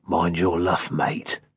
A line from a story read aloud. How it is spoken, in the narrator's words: in a hoarse growl